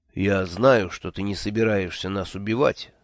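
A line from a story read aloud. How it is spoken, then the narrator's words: Said calmly. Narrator (Russian): спокойно сказал Нанка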